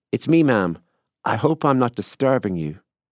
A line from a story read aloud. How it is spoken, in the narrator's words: a voice that was vaguely familiar called out, and confidently from below